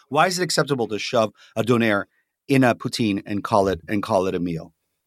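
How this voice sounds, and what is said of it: Strained, hoarse voice. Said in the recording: “I'm losing my voice now”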